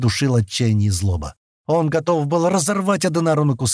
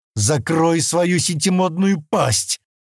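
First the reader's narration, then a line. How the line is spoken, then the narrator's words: Roar. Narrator (Russian): проревел Стэн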